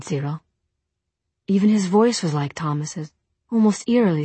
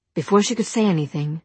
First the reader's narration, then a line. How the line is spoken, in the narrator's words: Jem said quickly